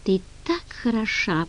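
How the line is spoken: Whisper. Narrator (Russian): прошептал он

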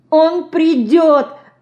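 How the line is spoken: Sobbing. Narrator (Russian): всхлипывая, сказала Динка

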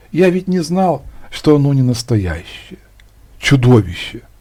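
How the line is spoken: Quietly. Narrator (Russian): тихонько сказал

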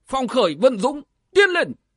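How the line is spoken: Sudden murderous roar. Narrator (Vietnamese): Lãnh Vân quán chủ mắt lóe sát cơ, bỗng quát to lên

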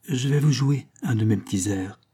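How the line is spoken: Choked murmur. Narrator (French): murmure-t-il d'une voix étranglée

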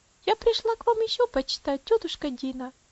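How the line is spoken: Child's soft gentle voice. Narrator (Russian): сказала маленькая девочка своим приятным нежным голосом

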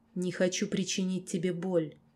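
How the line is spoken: Quiet reply. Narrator (Russian): тихо ответил лорд

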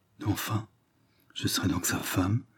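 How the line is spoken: Murmured to herself. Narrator (French): se murmura-t-elle à elle-même

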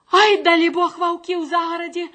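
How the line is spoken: Cried out. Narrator (Belarusian): Ускрыкнула яна

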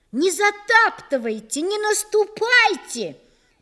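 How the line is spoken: Little boy shouting. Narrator (Russian): кричал братишка Нины Гришиной

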